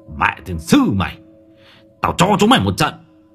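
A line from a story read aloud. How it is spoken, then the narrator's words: Aggressive shout. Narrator (Vietnamese): bố vừa sấn sổ quát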